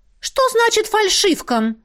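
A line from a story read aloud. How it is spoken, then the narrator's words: Indignant. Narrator (Russian): Возмущенно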